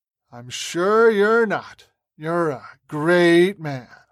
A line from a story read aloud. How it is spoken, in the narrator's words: Mick sneered